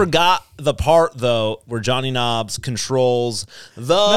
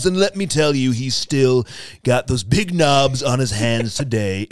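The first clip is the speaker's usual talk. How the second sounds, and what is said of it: Imitates another person's voice. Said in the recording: “best Donald Trump impression ... That was actually pretty good”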